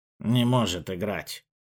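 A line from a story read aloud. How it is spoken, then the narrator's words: Quiet speech. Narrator (Russian): негромко говорил желто-коричневый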